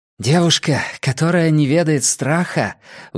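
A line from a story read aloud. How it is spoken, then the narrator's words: Breathed out. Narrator (Russian): выдохнула Сулийка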